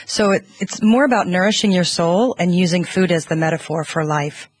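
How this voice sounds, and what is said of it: American accent. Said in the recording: “you're from the States, I'm guessing, from the accent”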